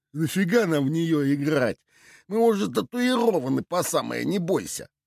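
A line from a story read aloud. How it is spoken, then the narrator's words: Scoffing snort. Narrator (Russian): хмыкнул Уйбуй Фляга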